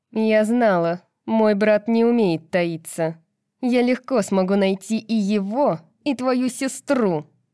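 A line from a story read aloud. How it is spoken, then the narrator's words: Growl. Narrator (Russian): прорычала Сабина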